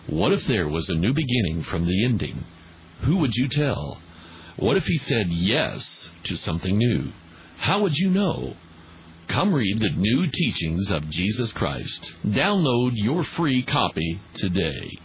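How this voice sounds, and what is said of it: Announcer-style commercial voice. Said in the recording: “do my best commercial voice.”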